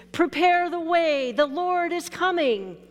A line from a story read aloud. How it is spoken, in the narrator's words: John the Baptist shouts out in the wilderness